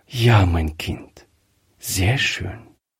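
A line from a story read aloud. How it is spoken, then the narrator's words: Quiet. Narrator (German): sagte Frau Griffier leise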